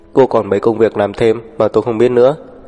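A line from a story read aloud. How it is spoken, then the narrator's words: Plain. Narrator (Vietnamese): anh hỏi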